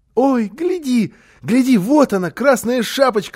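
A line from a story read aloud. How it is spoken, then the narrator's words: Child shouting excitedly. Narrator (Russian): закричал малыш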